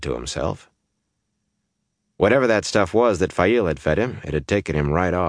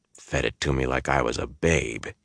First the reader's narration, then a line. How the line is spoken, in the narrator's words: growled